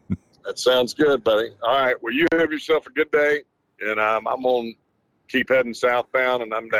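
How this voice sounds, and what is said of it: Usual voice. Nothing is said of it.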